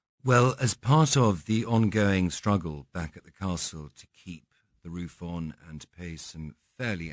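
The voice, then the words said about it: Non-American accent. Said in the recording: “We can tell by your accent you're not from the United States”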